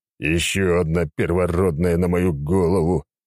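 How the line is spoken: Groaning. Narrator (Russian): Простонав

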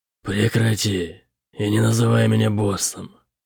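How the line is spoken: Displeased grumble. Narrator (Russian): недовольно проворчал Бытрим

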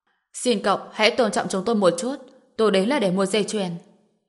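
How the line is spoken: Cold firm speech. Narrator (Vietnamese): Ánh mắt Trần Bình lạnh lùng, nói

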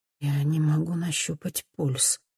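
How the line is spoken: Quiet. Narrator (Russian): говорит она тихо

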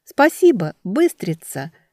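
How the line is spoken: Shouting. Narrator (Russian): крикнула Велька

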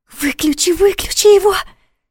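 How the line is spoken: Frightened whisper. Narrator (Russian): испуганно прошептала Саша

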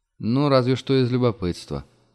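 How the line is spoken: Sighing. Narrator (Russian): вздохнул Мартин

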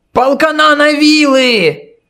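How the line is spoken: Shout from crowd. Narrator (Russian): закричал кто-то из толпы

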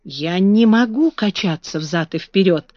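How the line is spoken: Plain. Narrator (Russian): сказал Бен

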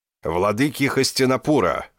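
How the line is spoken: Roaring. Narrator (Russian): взревел Бхишма

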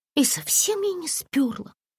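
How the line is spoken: Near whisper. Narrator (Russian): Почти прошептала Ленка

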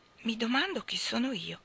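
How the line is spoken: Said softly, half to herself. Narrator (Italian): disse sottovoce, metà a se stessa e metà a Michael

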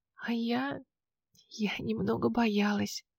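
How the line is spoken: Whispered confession. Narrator (Russian): призналась шепотом

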